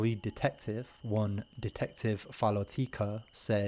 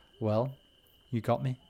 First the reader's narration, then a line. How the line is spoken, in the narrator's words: he kindly says